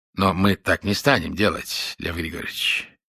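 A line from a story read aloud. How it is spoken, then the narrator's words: Gentle objection. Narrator (Russian): мягко возразил Ройтман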